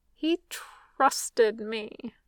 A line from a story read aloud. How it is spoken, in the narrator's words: Lami mutters into his side